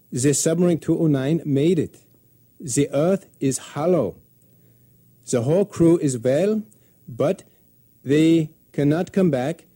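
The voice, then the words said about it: Put-on German accent. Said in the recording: “apologize to my German listeners for the following voice actor's accent”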